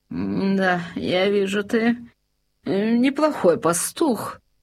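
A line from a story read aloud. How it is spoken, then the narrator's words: King's grumble. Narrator (Russian): проворчал король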